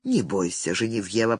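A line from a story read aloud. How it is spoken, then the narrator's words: Whisper. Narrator (Russian): прошептал Фредерик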